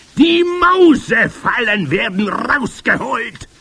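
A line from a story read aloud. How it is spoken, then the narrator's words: Thunderous voice. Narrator (German): erhob sie die Stimme noch mächtiger denn je und donnerte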